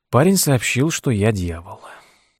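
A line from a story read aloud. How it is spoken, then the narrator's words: Sighing. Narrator (Russian): вздохнул Тед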